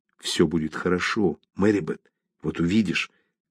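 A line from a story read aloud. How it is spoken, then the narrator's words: Whispered. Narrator (Russian): прошептал он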